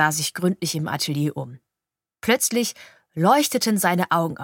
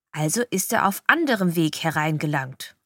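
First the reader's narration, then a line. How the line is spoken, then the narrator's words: Plain. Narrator (German): sagte Justus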